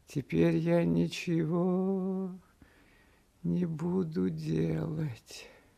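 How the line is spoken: Quiet singsong to himself. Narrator (Russian): сказал он самому себе негромко и нараспев

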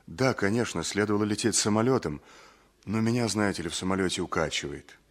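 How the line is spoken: Embarrassed quiet babbling. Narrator (Russian): Ольга Ивановна окончательно смутилась и тихо пролепетала

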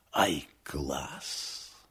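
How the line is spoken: Admiring whisper. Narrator (Russian): гример восхищенно шепнул

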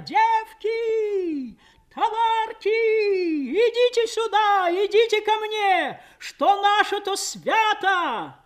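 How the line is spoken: Strange singing joyful shout. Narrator (Russian): Мать неслыханно чужим голосом, поющим, но призывно радостным кричала

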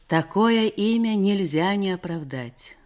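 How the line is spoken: Loud guffawing. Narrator (Russian): захохотал он

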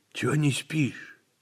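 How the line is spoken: Quiet question. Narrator (Russian): тихо спросил он Иванникова

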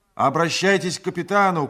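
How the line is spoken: Shouted. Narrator (Russian): крикнул я ему

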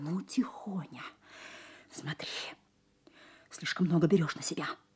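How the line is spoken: Angry whisper. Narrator (Russian): Сказала злым шепотом

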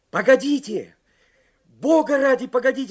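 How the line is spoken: Shouting. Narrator (Russian): закричал Карсон

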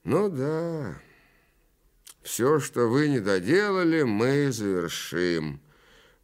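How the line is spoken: Knowing prompt. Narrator (Russian): понятливо подсказал

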